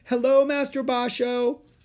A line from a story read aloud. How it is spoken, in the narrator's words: One called out